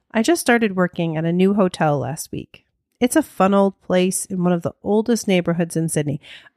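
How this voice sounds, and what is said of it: American accent. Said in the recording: “I can't do an Australian accent. I have tried. It doesn't work. ... You're just going to have to listen to this in my American accent.”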